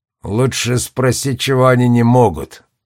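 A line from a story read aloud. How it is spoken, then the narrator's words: Irritated, curt. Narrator (Russian): раздраженно бросил Дьюла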